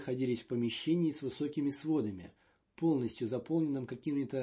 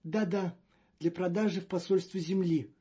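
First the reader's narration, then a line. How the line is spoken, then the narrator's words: Moaning. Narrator (Russian): простонал Маньян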